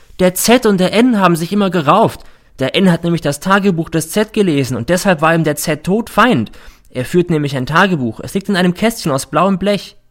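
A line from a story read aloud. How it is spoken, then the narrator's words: Sudden shout. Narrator (German): schreit plötzlich der R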